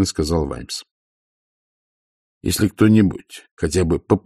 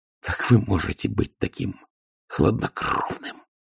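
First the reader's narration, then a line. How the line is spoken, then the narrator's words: Growl. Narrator (Russian): прорычала она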